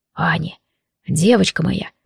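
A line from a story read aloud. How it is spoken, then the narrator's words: Deep mesmerizing whisper. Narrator (Russian): прошептал он мне в губы, завораживая глубоким тембром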